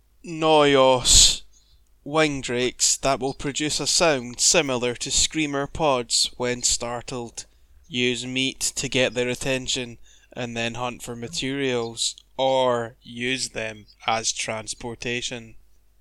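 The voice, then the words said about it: Weary, flat announcer voice. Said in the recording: “That's my announcer voice. ... It's your announcer voice when you've done like a, I don't know, 44-hour shift or something. Dead man.”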